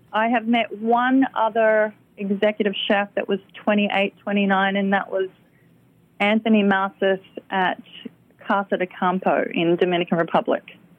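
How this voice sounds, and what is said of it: Australian accent. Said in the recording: “My Australian accent. ... It sounds even better with your Australian accent.”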